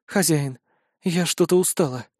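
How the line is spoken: Whispered. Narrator (Russian): прошептала Яя

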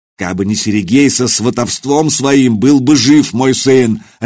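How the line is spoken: Barking. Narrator (Russian): рявкнул он

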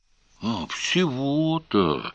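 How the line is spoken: Strained, forced out. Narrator (Russian): выдавил Сварог

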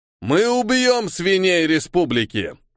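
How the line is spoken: Loud shouting. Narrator (Russian): громко закричал консул

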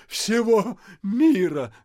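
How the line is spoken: Stunned crowd groaning. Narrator (Russian): застонали оглушенные васюкинцы

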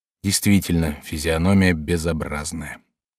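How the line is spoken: Muttered under breath. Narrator (Russian): хозяин пробормотал себе под нос

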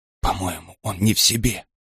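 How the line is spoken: Whisper, holding back tears. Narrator (Russian): прошептала Ларин, пытаясь не заплакать

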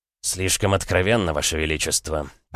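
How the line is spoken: Flustered mumble. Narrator (Russian): пробормотал прославленный полководец, заметно растерявшись

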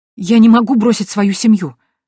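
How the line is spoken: Exclaimed. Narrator (Russian): воскликнула я

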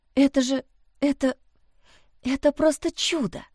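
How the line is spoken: Breathless awe. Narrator (Russian): выдохнула

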